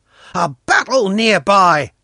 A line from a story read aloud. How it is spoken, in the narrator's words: Pashka cried